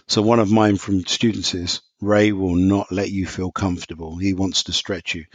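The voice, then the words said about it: British English accent. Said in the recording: “I don't have an American accent. So just to qualify, so I'm from London, England.”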